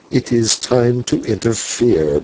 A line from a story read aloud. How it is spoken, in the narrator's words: muttered the senor